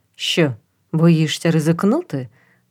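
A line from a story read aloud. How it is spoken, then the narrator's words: Plain question. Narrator (Ukrainian): запитав Норман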